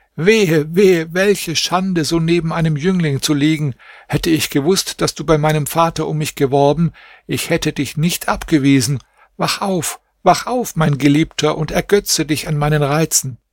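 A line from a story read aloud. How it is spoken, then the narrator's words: Screamed. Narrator (German): schrie sie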